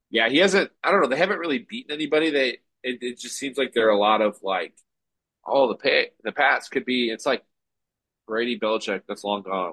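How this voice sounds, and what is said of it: Sick, flu-affected voice. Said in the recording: “I sound terrible. I'm in my flu game right now”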